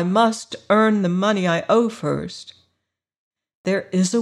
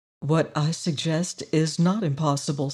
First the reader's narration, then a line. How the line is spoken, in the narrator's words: said the harvester softly